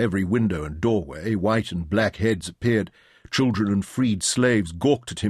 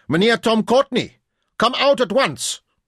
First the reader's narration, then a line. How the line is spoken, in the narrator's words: Caser shouted towards the main doors of the godown